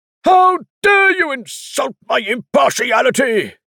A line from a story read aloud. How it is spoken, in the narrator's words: Sir Benjamin bellowed